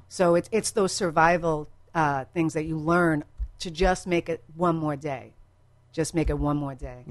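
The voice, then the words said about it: A distinctive accent. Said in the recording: “can I start dating your accent? ... Just the way she pronounces Tinder.”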